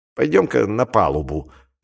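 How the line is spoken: Grumbling. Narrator (Russian): проворчал Флэниган

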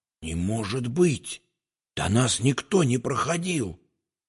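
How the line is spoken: Whispered. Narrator (Russian): прошептал

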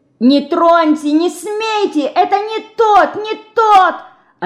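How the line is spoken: Terrified screaming. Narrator (Russian): обезумев от страха, кричала Динка

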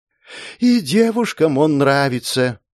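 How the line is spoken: Mock sigh. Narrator (Russian): притворно вздохнул Иолай

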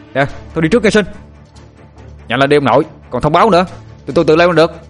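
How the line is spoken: Shouted. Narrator (Vietnamese): Tôi hét về phía thằng Sinh

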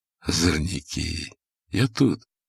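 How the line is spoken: Low undertone. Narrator (Russian): сказал вполголоса

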